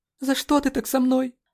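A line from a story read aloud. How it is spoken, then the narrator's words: Desperate sobbing cry. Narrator (Russian): Отчаянно выкрикнула она, судорожно всхлипнув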